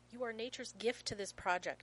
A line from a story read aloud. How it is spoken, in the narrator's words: snaps